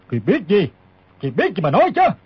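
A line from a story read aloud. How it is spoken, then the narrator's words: Old man, shouted question. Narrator (Vietnamese): Lão quát hỏi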